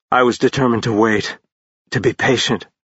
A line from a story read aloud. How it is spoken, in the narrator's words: rasped out